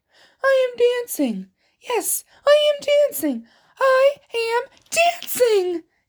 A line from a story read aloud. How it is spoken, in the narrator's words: Gerald cried